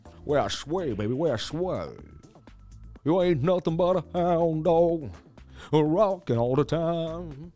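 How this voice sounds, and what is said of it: Imitates a famous singer's voice. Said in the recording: “my best Elvis impression.”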